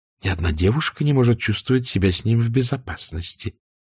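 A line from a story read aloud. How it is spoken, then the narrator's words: Whisper. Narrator (Russian): шепотом сказанные слова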